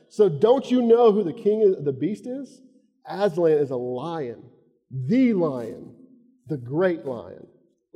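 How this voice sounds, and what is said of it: Southern US redneck accent. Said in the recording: “I want to do a British accent, but I won't, okay? So just go with this redneck from Florida”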